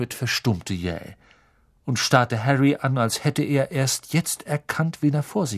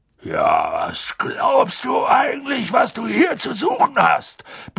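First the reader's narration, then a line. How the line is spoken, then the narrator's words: Sudden roar. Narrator (German): brüllte er so plötzlich los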